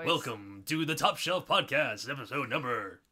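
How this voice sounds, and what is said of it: Weird radio announcer voice. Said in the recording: “talking in weird radio voice”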